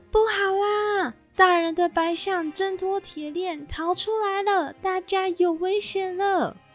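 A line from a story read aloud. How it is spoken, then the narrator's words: Distant alarmed shouting. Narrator (Chinese): 外头传来喊声，听见人们大声求救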